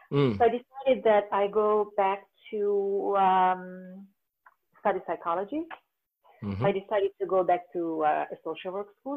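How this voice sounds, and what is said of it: Woman with a foreign accent. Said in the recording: “I'm a 50 plus woman with a foreign accent.”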